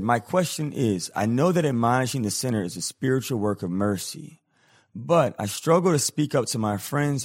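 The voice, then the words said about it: Sick voice, higher than usual. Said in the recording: “my voice is all messed up right now. I'm a little under the weather. So normally I have a little bit more of a deeper voice”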